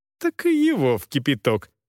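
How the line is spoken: Girl laughing. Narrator (Russian): засмеялась девушка

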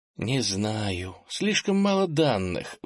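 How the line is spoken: Sigh. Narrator (Russian): вздохнула

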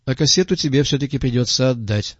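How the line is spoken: Plain. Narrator (Russian): сказал Крупица

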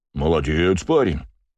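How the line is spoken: Deep bass voice. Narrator (Russian): пробасил мужик в косоворотке

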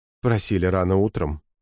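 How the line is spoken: Soft repetition. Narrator (Russian): мягко повторил Николай

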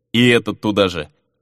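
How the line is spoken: Muttering. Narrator (Russian): пробурчал капитан

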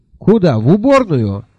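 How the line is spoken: Cheerful question. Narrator (Russian): весело уточнил

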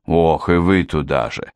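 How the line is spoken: Exasperated sigh. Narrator (Russian): в сердцах вздохнул Хью Диринг

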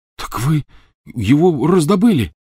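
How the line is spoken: Exclaiming. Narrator (Russian): воскликнул Рон

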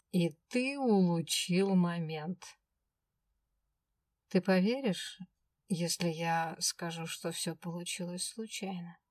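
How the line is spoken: Calm. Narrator (Russian): Спокойно проговорил Свендл

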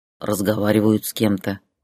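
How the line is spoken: Grumbled. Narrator (Russian): проворчал

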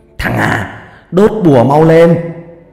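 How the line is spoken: Shouting. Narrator (Vietnamese): Ông hét lên

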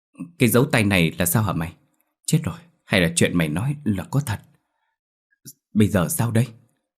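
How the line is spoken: Frightened question. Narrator (Vietnamese): Nó bắt đầu lộ vẻ sợ hãi hỏi tôi

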